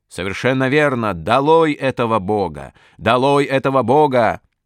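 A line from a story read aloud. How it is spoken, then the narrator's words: Shouted. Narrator (Russian): я тоже крикнул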